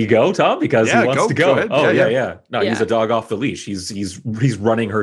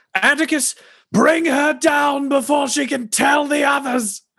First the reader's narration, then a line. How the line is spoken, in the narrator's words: he'll yell through the amplifier